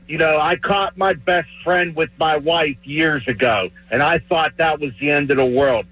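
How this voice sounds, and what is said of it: Pittsburgh yinzer accent. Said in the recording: “that's a yinzer right there, man... The accent and everything”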